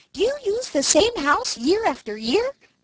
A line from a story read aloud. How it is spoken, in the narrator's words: piped up Striped Chipmunk